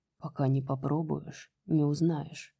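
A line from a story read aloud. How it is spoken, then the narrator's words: Hoarse rasp. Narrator (Russian): прохрипел он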